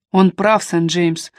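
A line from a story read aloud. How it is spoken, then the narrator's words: Tired. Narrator (Russian): устало произнес Линли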